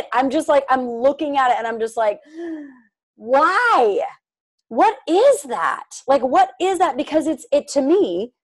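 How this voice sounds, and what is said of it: Agitated, fired-up voice. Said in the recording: “I'm getting like fired up about this. I'm sure you guys can hear it in my voice. I'm totally like, okay, all right, calm down.”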